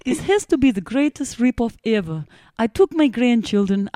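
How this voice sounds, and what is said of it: Put-on Russian accent. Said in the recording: “Are you allowed to read this in a Russian accent?”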